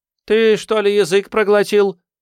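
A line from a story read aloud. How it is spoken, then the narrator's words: Snapping retort. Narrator (Russian): огрызнулась Джун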